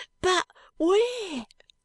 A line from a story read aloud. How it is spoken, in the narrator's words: cries the boy